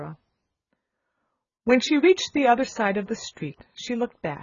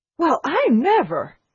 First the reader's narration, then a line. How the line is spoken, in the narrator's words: she exclaimed